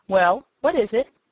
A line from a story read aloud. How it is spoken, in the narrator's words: asked the rabbit sharply